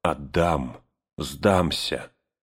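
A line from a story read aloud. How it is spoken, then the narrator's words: Hoarse, echoing, powerless vow. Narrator (Russian): гулкое эхо разносило над Авидом эту сиплую клятву бессилия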